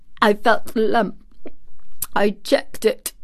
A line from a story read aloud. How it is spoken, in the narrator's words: choked out Colin